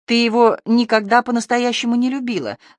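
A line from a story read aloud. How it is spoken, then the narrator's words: Calm and confident. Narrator (Russian): сказала она спокойно и уверенно, словно напоминала прописную истину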